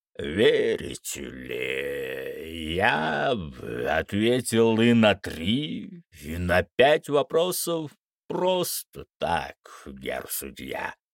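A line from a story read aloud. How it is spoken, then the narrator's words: Hoarse laughter. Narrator (Russian): раздался хриплый смех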